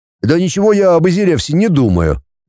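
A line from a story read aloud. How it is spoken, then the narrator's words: Cheerful. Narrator (Russian): весело заявил Платон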